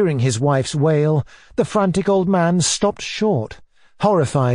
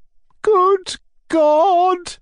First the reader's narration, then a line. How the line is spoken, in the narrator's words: cried the mother